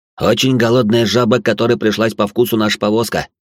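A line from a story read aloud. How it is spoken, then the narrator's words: Curt remark. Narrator (Russian): бросил я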